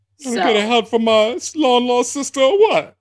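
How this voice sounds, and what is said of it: Put-on accent. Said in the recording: “Please stop with that accent.”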